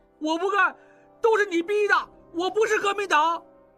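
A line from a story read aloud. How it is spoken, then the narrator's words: Excited shouting. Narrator (Chinese): 不觉也在激动地大喊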